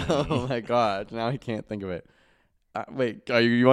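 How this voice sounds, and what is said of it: Usual voice. Nothing is said of it.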